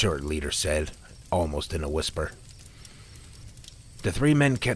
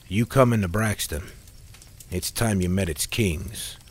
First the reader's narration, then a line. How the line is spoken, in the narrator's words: Neil said in a straightforward tone